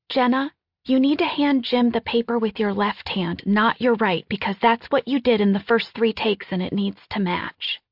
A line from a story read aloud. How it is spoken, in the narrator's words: She has the quietest voice, saying ever so gently